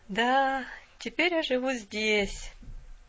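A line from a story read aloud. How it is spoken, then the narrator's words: Girl sighing. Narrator (Russian): вздохнула девушка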